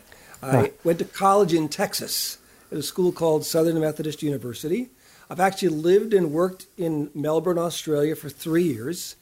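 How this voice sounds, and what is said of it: Chicago accent. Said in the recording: “I'm originally from Chicago, so that's probably where I got my accent that you're listening to”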